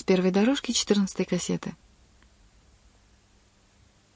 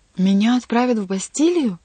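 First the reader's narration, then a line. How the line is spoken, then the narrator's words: Exclaiming. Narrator (Russian): воскликнул Бюсси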